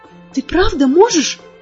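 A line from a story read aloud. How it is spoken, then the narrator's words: Stammering. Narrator (Russian): запиналась я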